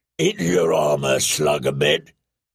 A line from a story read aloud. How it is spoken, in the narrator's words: he boomed